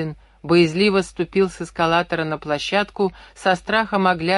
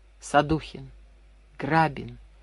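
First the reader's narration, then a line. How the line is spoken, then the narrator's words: Barely audible. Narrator (Russian): едва слышно произнес он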